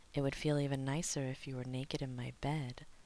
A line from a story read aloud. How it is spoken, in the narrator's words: John whispered, voice already dipping to his bedroom tone